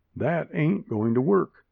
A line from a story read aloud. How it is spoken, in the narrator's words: says Bowman